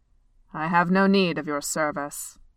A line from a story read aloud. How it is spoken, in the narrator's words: Beorn said gruffly